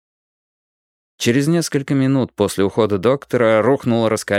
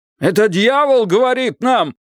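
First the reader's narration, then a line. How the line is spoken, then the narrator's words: Man shouting. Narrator (Russian): закричал какой-то мужчина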